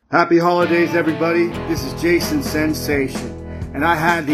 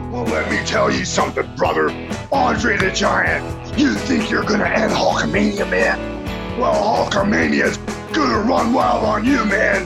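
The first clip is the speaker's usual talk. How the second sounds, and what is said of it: Wrestler impression. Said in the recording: “the greatest wrestling impersonator of all time”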